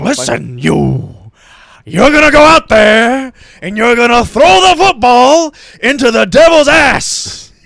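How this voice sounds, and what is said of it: Impression of a movie coach speech. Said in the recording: “that was not a bad impression. ... you're very good with impressions.”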